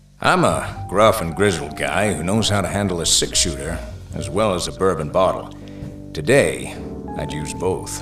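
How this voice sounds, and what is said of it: Manly narrator voice. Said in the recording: “my manly narrator voice”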